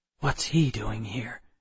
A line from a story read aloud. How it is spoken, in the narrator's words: I whispered to Millard